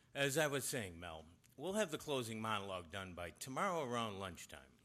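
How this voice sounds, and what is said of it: Sick, congested voice with a cold. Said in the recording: “you sound terrible ... He's got a bad cold coming on ... you do sound”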